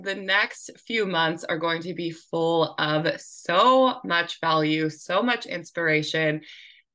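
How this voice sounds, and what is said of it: Raspy voice from a cold. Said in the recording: “I have a bit of a cold right now, I wasn't going to let my raspy voice stop me. ... definitely got a little scratch in my throat for sure.”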